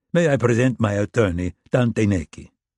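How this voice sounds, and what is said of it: Light foreign accent. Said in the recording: “with a light accent”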